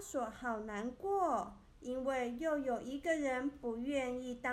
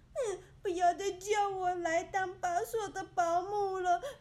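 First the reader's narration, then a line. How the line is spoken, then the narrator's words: Loud crying wail. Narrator (Chinese): 蒂娜就大声哭喊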